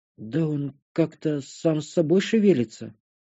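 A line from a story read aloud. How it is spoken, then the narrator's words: Confused mutter. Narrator (Russian): пробормотала растерянно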